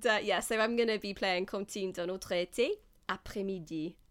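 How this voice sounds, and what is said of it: Put-on French accent. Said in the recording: “That was my French accent.”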